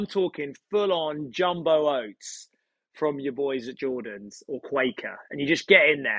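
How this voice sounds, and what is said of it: Usual voice. Nothing is said of it.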